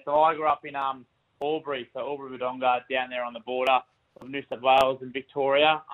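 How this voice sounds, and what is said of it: Slight country twang. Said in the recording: “you got a bit of a country twang about you”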